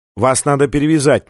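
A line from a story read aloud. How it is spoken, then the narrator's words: Commanding, firm tone. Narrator (Russian): непререкаемым тоном заявила Виктория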